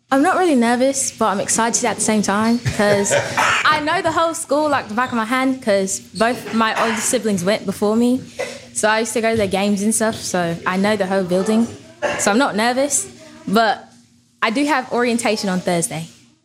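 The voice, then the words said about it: Put-on British accent. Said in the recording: “Tell us about your upcoming freshman year with your British accent.”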